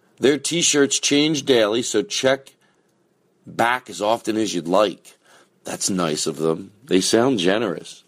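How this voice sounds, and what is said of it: Philadelphia accent. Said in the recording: “with my Philadelphia accent, in case I'm saying that funny”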